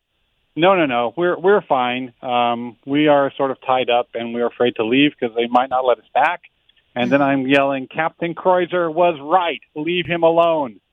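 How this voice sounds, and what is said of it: Hoarse, strained voice. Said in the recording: “I'm losing my voice because I'm leaning over the side yelling”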